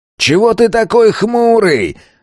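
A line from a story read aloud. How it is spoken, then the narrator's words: Yelled from afar. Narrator (Russian): заорал на него тот бандит с другого конца стадиона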